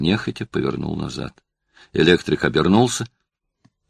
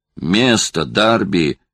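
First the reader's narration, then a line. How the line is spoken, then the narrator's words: Shout. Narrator (Russian): крикнул Судебский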